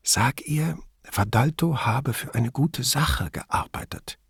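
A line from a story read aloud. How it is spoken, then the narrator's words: Whispered. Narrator (German): flüsterte sie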